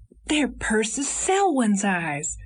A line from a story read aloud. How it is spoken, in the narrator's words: he almost shouted